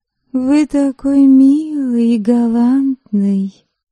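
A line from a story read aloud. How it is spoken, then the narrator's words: Cooing. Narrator (Russian): проворковала я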